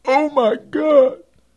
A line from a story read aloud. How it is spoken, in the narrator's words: John groaned, while chills suddenly came all over his body